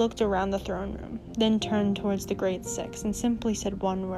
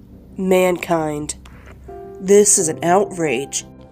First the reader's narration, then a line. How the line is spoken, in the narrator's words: bellowed Olend